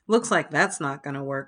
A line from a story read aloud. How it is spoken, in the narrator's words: says Dr